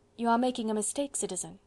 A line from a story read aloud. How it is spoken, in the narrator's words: said very quietly